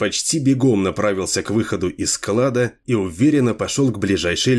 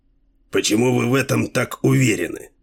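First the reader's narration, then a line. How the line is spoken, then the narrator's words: Hoarse question. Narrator (Russian): хрипло спросил Делуло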